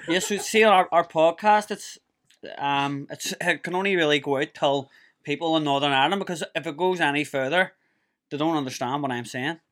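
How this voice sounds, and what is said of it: Strong Belfast accent. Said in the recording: “I love the Belfast accent... you have a very strong accent”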